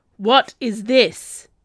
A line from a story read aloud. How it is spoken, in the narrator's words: bellowed in pure rage